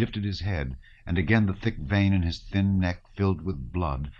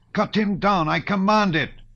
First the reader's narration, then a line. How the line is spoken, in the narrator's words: shouted Rostopchin, suddenly growing pale like Vereshchagin